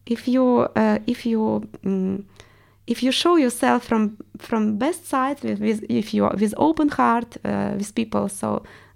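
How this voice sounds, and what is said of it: Russian accent in English. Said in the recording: “my accent because everyone realized I'm Russian ... your accent is amazing”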